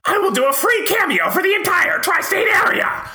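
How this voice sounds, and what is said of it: Cartoon villain character voice. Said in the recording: “my Doctor Doofenshmirtz voice. I do a very good Doctor Doofenshmirtz impression”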